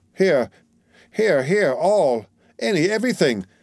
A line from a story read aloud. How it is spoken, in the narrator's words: exclaimed the breathless woman